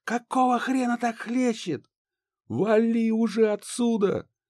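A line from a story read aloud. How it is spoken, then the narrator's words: Shout. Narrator (Russian): Крикнул я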